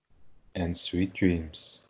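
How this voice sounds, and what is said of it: Sultry, sexy-sounding voice. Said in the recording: “did your voice sound so sexual? ... Girl's sexy voice”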